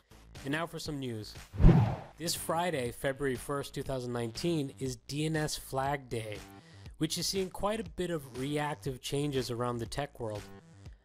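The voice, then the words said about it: Slightly off, under-the-weather voice. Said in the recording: “my voice is a little off this week. I'm a little under the weather”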